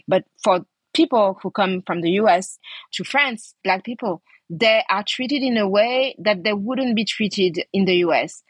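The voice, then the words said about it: French accent in English. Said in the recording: “when I go to the US with my French accent”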